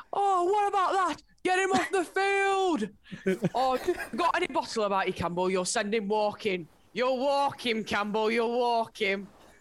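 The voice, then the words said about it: Ranting impression in Northern accent. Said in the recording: “you should do that because you got the accent ... That's good ... big Northern summer signing”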